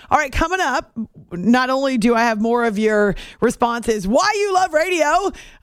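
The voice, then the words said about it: Yelling, loud excited delivery. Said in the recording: “I don't know why I'm yelling it. I just am.”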